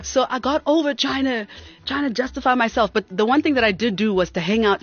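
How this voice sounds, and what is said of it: Mixed South African-American accent. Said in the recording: “I've got a, you know, mixed masala accent”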